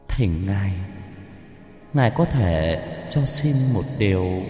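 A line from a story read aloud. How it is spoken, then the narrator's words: Soft, breezy voice. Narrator (Vietnamese): Cô tổ giọng nhẹ nhàng như gió thoảng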